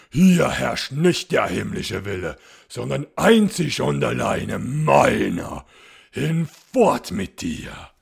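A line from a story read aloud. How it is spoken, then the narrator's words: Commanding shout. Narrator (German): schrie der schwarze Graf gebieterisch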